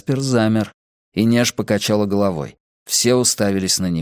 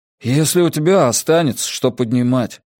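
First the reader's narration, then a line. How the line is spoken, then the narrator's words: Gloomy. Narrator (Russian): мрачно сказал Джеспер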